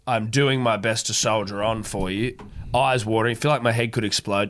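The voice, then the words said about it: Congested, sniffly, sick-sounding voice. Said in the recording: “do apologise for the consistent sniffling... I sound like an absolute deathbed”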